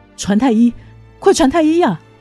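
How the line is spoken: Loud shout. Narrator (Chinese): 苏沫大叫

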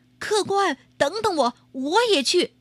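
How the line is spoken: Urgent calling out. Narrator (Chinese): 小伙儿赶紧喊住他

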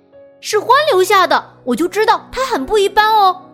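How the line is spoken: Hare calling out. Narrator (Chinese): 野兔叫道

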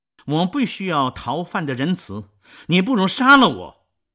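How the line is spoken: Proud shout. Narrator (Chinese): 沙威出于自尊，又向冉冉喊道

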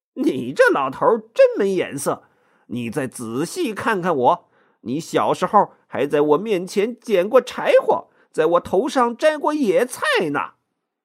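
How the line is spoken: Grinning, playful. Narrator (Chinese): 孙悟空笑嘻嘻的 说

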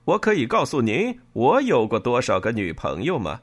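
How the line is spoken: Loud joking. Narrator (Chinese): 米凯莱大声的开玩笑说

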